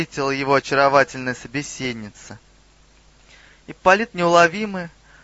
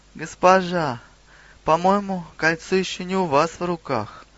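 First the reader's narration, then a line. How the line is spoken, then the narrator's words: Sad smirk. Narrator (Russian): печально усмехнулся Ипполит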